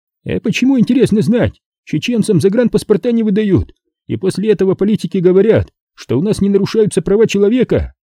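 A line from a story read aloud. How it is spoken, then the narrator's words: Shouting right into ear. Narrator (Russian): кричал кто-то мне в самое ухо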